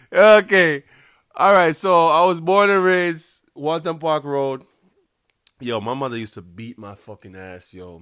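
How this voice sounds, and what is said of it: Strong Jamaican accent. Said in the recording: “My accent is really fucking strong. If I should talk like how real Jamaicans talk ... Some people will like my accent”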